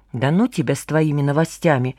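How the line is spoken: Muttering under breath. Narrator (Russian): себе под нос пробормотала Маша Вепринцева

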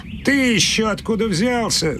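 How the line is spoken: Boy laughing loudly. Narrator (Russian): захохотал мальчишка

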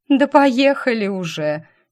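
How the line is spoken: Nearly bursting with laughter. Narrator (Russian): чуть не расхохоталась я

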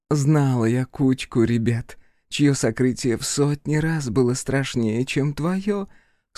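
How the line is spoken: Giggling woman. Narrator (Russian): снова хихикнула женщина

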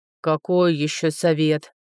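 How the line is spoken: Deafening dragon roar. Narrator (Russian): Прорычал дракон так, что я чуть не оглохла

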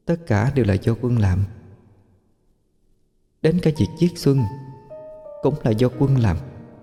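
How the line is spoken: Soft voice near ear. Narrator (Vietnamese): Tiếng chị May vang lên khe khẽ bên tai Minh Anh

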